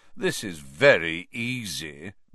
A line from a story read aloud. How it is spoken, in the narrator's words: Malfoy drawled, loud enough for Harry to hear him